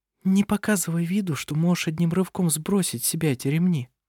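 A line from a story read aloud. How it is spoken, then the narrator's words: Whispered. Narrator (Russian): прошептала она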